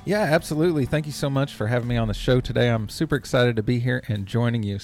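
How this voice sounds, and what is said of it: Texan accent. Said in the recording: “I live in the United States in Texas. You can probably tell by the accent and by how many times I say y'all”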